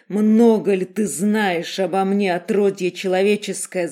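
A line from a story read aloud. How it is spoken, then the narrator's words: Bestial growl. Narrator (Russian): зарычал звериным голосом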